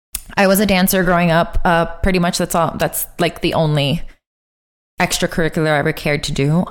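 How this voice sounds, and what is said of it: Miami accent. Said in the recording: “Also from Miami, if you can't tell by my amazing accent that will never leave me”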